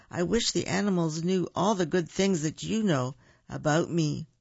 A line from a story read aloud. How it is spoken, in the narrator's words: said Bear